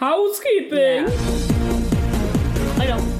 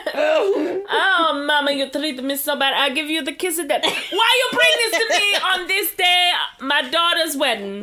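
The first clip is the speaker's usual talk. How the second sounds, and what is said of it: English with a put-on Italian accent. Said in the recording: “In English with an Italian accent.”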